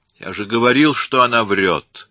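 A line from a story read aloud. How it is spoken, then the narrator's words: Irritated. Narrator (Russian): раздраженно сказал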